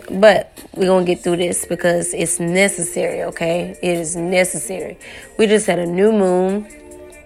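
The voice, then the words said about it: Hoarse, strained voice. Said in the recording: “I've lost my voice, so I'm a little hoarse ... I'm a little hoarse”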